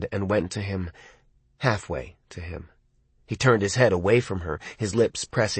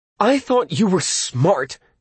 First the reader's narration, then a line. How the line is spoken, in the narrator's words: she shouted, finally